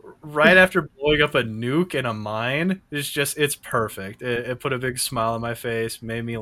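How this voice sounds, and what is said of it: Usual voice. Nothing is said of it.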